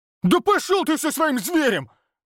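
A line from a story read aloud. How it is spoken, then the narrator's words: Barked. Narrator (Russian): рявкнул Олег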